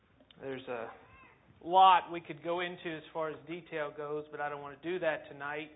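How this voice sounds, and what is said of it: Southern US accent. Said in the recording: “as you can tell from the accent, it's been 20 years in the South”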